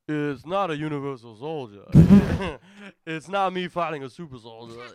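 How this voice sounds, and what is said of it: Imitates another person's voice. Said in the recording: “Let me try to do my impression of him. ... It sounds like Bobcat. ... I'm like having a stroke.”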